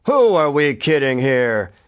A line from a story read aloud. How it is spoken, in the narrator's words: he demanded in a voice that thundered through the speakers like the voice of God on high